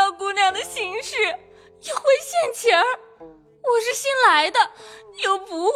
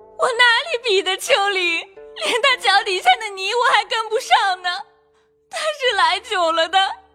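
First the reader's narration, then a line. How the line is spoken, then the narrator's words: Wailing loudly. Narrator (Chinese): 金贵更加大哭起来，说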